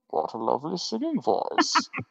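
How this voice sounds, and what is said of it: Bane impression, muffled voice. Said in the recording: “That voice and Bane. I did Bane forever after The Dark Knight Rises ... The trick is to cover your mouth ... It always sounds like mildly surprised. It's so stupid.”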